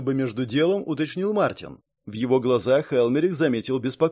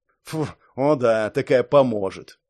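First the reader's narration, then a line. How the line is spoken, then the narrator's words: Snorting. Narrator (Russian): фыркнул Шон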